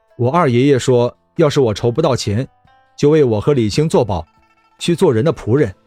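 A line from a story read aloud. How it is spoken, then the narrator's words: Calm, flat. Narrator (Chinese): 李直淡淡说道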